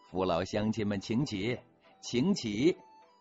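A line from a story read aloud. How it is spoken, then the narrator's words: Smiling. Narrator (Chinese): 含着笑说了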